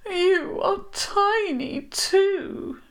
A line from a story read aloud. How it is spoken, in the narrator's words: she said mournfully